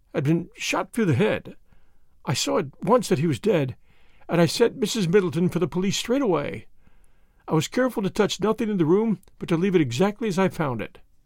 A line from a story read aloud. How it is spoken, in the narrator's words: her voice faltered